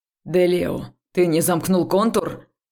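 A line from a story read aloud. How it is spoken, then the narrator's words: Barked. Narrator (Russian): рявкнул проректор Судоу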